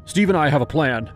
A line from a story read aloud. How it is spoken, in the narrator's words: Patrick blurted